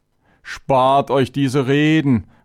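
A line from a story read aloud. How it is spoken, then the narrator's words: Angry outburst. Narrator (German): rief Chavénes aufbrausend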